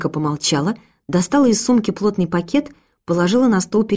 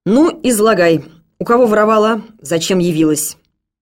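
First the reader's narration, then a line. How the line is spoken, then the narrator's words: Stern policeman. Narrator (Russian): Полицейский строго предложил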